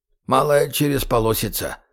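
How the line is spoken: Grumbling. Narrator (Russian): бурчал Гоша

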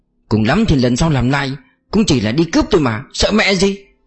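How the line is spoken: Irritated, after a pause. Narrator (Vietnamese): Lưu Trực im lặng giây lát, bực bội nói

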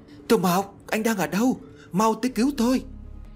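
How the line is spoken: Terrified tearful scream. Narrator (Vietnamese): Nước mắt của tôi tuôn trào, lúc này gần như sắp bị dọa chết thì cố gắng hết sức để hét tên Tô Mộc

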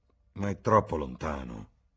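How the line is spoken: Grumble. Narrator (Italian): brontolò

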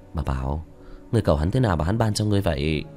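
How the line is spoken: Resigned sigh. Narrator (Vietnamese): bất đắc dĩ thở dài

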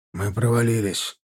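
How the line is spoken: Breathless exhale. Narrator (Russian): выдохнул Семен

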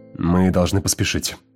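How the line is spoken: Irritated. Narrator (Russian): раздраженно произнес он

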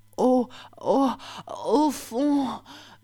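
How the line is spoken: Stammered. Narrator (French): bégaya-t-elle

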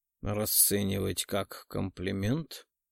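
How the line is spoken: Purring close to the ear. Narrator (Russian): промурлыкал рядом с ухом

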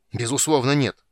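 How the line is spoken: Barked, losing patience. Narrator (Russian): не выдержав, гаркнул Танис

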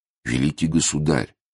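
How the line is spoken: Whispering. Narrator (Russian): шепнул он

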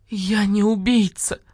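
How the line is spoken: Sobbing. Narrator (Russian): зарыдала лиса

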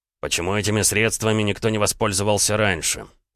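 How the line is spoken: Through gritted teeth. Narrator (Russian): сквозь зубы процедил Ромка

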